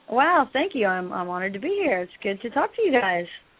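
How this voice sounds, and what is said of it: Sexy put-on Athena voice. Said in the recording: “You have a very sexy voice. ... I'm doing my Athena voice, which I'm out of practice”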